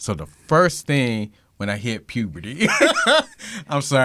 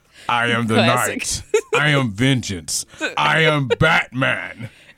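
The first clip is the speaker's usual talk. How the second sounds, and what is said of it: Deep Batman character voice. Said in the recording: “do the Batman voice. The Kevin Conroy voice.”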